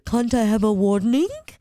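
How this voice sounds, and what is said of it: Imitates another person's accent. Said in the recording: “I'm mimicking her accent”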